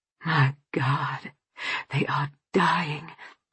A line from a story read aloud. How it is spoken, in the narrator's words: Tom whispered